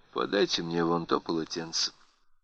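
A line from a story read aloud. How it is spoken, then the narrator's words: Indifferent command. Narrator (Russian): Ноэль безразличным тоном приказала ему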